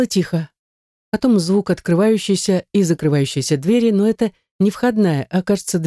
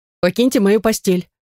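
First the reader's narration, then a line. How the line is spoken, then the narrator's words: Stern demand. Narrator (Russian): требую я строго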